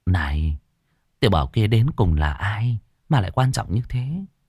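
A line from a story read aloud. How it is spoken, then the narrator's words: Quiet question. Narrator (Vietnamese): Trưởng lão nhỏ giọng hỏi Ngô Thắng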